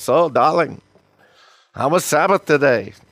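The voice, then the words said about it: Put-on voice of a Jewish wife. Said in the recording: “That's my bad impression of a Jewish wife.”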